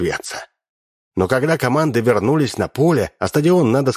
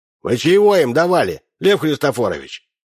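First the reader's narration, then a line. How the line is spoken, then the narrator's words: Stern question. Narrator (Russian): Корнелий Удалов строго спросил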